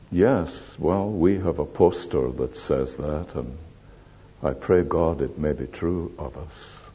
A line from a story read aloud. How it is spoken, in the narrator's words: I answered him a bit feebly, I think, said